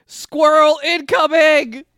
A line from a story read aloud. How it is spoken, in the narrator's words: Stroheim shouts